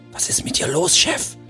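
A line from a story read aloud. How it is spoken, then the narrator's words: Whispered. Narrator (German): Freigol flüsterte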